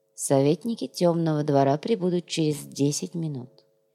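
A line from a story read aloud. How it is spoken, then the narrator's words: Quiet. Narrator (Russian): тихо сказал Наф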